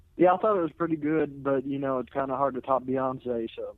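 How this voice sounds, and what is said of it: Speaks with a distinctive accent. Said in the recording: “I love your accent and your voice. Hearing that accent and voice”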